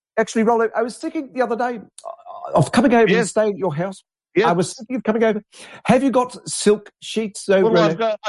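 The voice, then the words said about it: Impression of another man's voice. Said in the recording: “do an Alan impression?”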